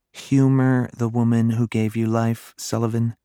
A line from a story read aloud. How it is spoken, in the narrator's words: another sigh escaped